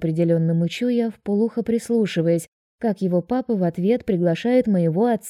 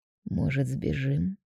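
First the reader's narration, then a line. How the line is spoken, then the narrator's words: Quiet suggestion. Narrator (Russian): тихо предлагает жених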